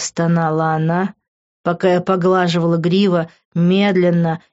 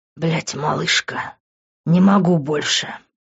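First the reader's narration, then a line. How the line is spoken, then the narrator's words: Moaning. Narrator (Russian): простонал я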